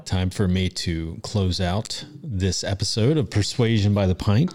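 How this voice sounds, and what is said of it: Announcer-style radio voice. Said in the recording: “put on your radio voice”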